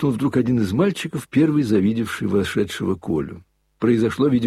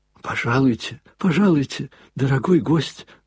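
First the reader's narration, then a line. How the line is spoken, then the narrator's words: Babbling. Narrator (Russian): залепетал он ему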